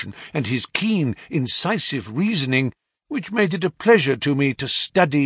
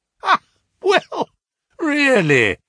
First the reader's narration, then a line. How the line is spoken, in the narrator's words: he cried